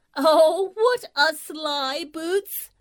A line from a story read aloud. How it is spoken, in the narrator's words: she cried